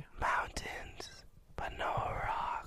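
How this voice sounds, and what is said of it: Whispering. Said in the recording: “Stop whispering... Why are you whispering it?... Isn't this an ASMR podcast?”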